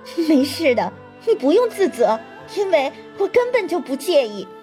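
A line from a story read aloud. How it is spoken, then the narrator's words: Sudden laughter. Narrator (Chinese): 祝海棠突然笑出声来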